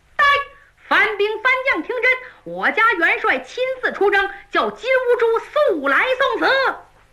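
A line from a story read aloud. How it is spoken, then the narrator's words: Many loud voices shouting. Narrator (Chinese): 过来20多个嗓门又大又亮的，冲着番营喊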